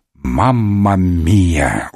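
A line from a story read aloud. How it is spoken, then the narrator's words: Exhale. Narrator (Russian): выдохнул комиссар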